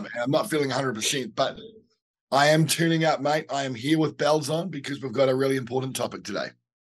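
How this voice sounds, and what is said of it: Croaky, hoarse voice. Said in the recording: “I'm a little bit croaky, as you can possibly tell by my voice.”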